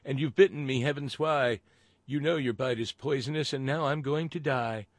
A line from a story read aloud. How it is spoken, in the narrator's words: cried the woman